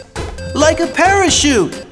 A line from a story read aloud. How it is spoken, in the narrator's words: cried Michael